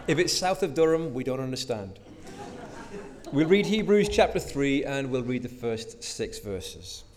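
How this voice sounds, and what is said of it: Newcastle accent. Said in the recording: “this is a Newcastle accent.”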